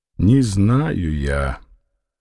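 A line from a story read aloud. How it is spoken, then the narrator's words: Sad answer. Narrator (Russian): грустно качнув головой, ответил Фома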